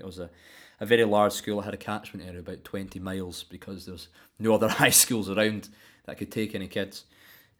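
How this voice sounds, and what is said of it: Deep West Coast Scottish accent. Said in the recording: “there's a lot of harsh consonants... it's quite a deep accent... It sits quite far back in the mouth, with the consonants hitting sharply... this kind of general West Coast accent”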